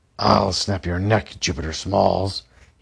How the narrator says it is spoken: he barked

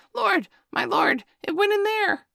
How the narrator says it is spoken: Tabuki behind him was squeaking

